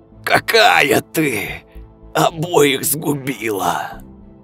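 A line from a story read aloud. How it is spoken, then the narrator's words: Hoarse rasp. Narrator (Russian): Прохрипел Степан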